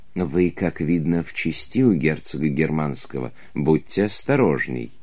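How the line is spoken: Whispering in ear. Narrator (Russian): шептала мне на ухо

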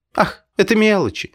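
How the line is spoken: Laughing. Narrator (Russian): смеялась Лида

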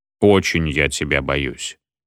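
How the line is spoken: Plain. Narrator (Russian): ответил всем известный

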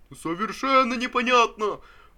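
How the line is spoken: Sudden exhausted shout from back. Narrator (Russian): Вдруг крикнул чей-то измученный голос из задних рядов

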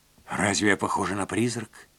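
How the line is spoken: Whisper. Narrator (Russian): прошептала она

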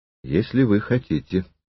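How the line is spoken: Calm reply. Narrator (Russian): спокойно ответил Триродов

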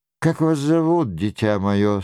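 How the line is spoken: Very soft question. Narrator (Russian): спросила она очень мягко

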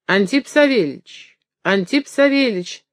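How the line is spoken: Joyful exclamation. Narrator (Russian): радостно воскликнул он

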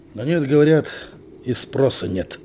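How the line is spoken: Sad agreement. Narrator (Russian): грустно согласился Павел

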